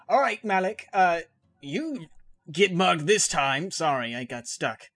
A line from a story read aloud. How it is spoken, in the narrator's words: I guess I'm going to yell out